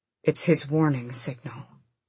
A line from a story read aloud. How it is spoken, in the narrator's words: Rowan murmured